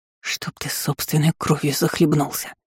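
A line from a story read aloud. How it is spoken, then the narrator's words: Angry hiss. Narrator (Russian): Прошипела я со злостью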